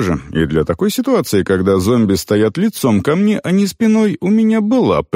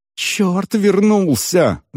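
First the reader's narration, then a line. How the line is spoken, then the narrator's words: Frightened loud cry. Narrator (Russian): загласил перепуганным голосом Тхакун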